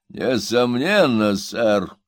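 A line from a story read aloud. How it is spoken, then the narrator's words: Menacing reply. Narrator (Russian): грозно ответил толстый джентльмен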